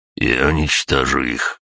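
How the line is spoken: Through gritted teeth. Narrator (Russian): процедил Игорь

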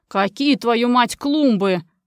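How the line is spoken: Growled. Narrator (Russian): прорычал он

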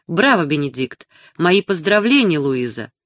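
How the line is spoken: Purring. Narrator (Russian): промурлыкала она

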